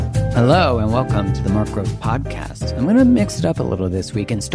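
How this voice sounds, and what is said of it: Usual voice. Nothing is said of it.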